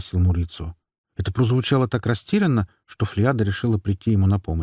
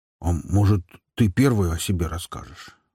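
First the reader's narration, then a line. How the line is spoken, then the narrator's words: Timid question. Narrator (Russian): робко спросил Мурицио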